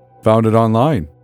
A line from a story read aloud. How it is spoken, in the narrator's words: grunted